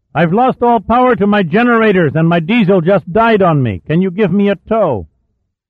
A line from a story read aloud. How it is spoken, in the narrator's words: Jack cupped his hands to his mouth and shouted